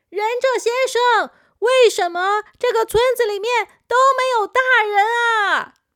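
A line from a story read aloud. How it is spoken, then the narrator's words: Shouting over loud noise. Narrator (Chinese): 小扑必须要叫得很大声才可以，因为骑摩托车的时候实在是太吵了，不只是引擎的声音，还有很大的风声呢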